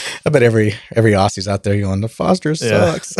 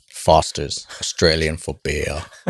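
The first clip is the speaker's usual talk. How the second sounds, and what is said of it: Put-on Australian accent. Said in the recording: “I tried to do an Australian accent. I can't do it. ... That's pretty good.”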